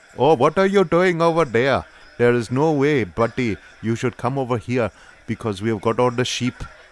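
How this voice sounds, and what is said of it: Put-on Welsh accent. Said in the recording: “there's my Welsh ... I've been told that's quite good ... said it was quite good”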